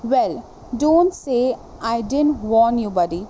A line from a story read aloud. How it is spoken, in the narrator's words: replied Master Jordan